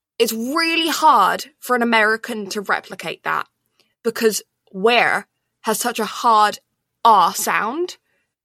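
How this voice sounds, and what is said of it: Posh British English accent. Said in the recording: “in UK English, they're posh, right? ... They're my kind of accent.”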